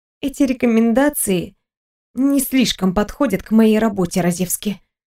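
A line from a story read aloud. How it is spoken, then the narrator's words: Gloomy, curt. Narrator (Russian): мрачно кинула Виктория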